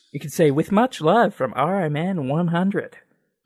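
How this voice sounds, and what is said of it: Bad put-on Kiwi accent, Texan-sounding. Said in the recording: “me attempting a bad... Kiwi accent ... that's kind of like bordering on Texan Australian ... that's like a Canadian trying to sound like a Texan”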